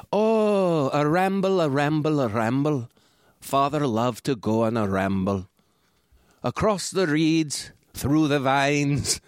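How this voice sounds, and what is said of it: Attempted Scottish accent. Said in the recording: “he's Scottish, so I can't do a Scottish accent. Like, I could try, but this is not it. But it's close to this.”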